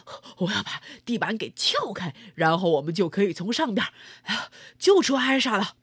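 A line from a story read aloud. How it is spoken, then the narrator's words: Panting. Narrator (Chinese): 白铁工气喘吁吁地说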